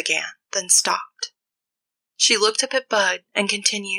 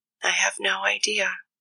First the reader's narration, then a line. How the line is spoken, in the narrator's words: she said, barely above a whisper